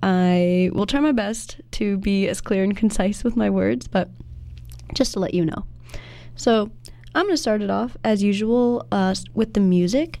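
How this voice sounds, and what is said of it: Nasal, stuffy voice. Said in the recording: “my voice may sound a little nasal or stuffy because I've been fighting some allergies”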